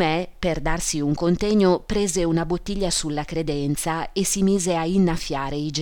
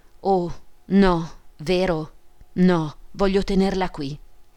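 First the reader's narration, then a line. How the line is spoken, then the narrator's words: Stammering, dismayed voice. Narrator (Italian): con voce balbettante, sbigottita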